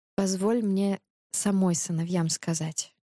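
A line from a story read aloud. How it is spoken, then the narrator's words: Soft. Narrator (Russian): мягко повторила царица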